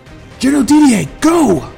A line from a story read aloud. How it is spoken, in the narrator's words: yelled the king